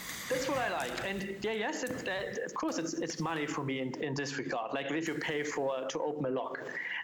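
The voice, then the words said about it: Strong German accent. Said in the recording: “Sorry for my pronunciation. ... I have a strong German dialect.”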